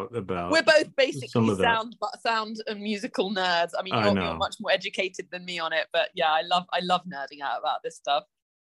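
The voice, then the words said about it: Non-American accent. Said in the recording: “people already listening can tell from the accent, you know, you weren't born in America”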